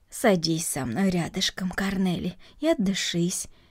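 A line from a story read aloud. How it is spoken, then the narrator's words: Calm. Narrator (Russian): спокойно произнесла Марта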